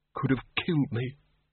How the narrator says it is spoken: he muttered

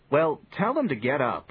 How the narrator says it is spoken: said Johnny a bit impatiently

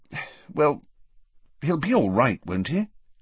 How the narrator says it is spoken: said the Prime Minister anxiously

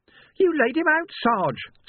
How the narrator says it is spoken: Sam squeaked

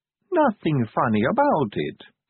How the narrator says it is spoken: said Sally sweetly

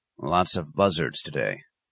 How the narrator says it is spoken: he said quietly

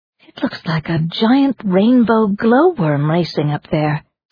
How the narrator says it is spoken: Suki breathed

